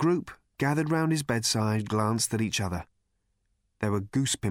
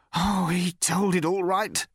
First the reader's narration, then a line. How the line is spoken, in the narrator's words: said the man savagely